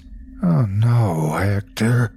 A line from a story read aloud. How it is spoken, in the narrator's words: I moaned